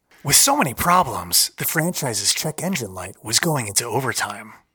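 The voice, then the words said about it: Suspenseful documentary narrator voice. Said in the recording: “doing my normal narration voice ... As if you're in the documentary series, your best, you know, the suspense is building.”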